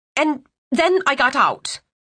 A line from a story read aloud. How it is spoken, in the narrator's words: she blurted